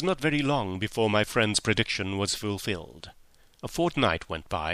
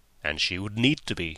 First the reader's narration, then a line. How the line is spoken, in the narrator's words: said Holmes gravely